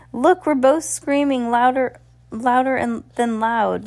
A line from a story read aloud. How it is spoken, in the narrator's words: Lucy said with a laugh